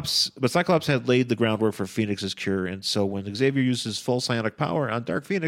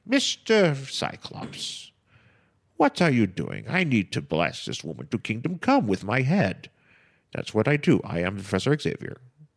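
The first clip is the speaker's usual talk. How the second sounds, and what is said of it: Patrick Stewart impression as Professor X. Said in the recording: “my Sir Patrick Stewart impersonation”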